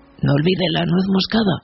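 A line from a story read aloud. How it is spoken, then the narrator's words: Plain. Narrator (Spanish): dijo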